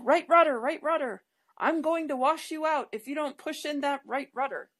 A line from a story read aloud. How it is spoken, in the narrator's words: The instructor would yell